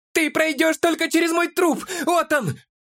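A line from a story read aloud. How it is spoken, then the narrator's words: Shouted. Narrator (Russian): крикнул он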